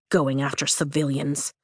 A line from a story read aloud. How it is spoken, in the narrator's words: Riddick mutters